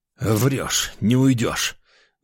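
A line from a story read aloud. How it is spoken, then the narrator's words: Breathless exhale. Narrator (Russian): выдохнул я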